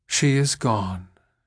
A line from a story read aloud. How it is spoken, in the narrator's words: said Millarca, with a sigh